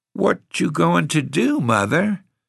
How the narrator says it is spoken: inquired Nanny in a timid voice

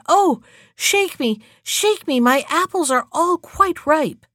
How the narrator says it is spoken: the apple tree, which cried

